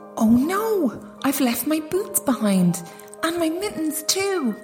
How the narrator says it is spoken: cried Gerda, as the cold stabbed her like a knife

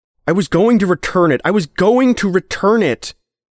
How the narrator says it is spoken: Henry yelled

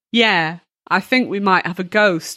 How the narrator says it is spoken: replied

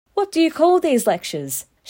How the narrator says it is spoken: one of the wags in class called out

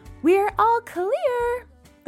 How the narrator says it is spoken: the girl shouted from outside

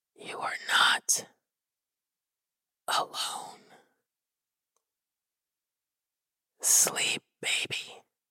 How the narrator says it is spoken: the dark thing whispered

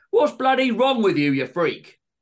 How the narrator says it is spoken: Greg stood up and shouted

